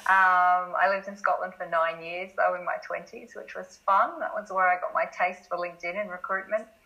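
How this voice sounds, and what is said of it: Australian accent. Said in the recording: “I'm obviously Australian by the accent.”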